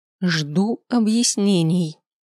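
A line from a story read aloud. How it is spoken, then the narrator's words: Haughty, through gritted teeth. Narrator (Russian): надменно процедила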